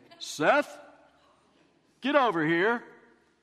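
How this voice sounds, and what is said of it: Loud, booming, deep radio voice. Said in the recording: “this loud, booming radio voice ... in his deep radio voice”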